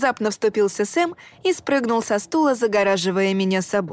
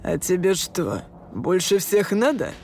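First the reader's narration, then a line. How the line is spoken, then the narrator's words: Through gritted teeth, burly man. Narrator (Russian): Процедил самый коренастый и высокий из четверки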